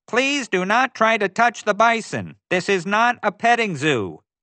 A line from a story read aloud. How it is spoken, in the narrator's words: She shouted